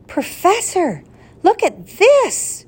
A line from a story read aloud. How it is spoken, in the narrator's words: cried Ben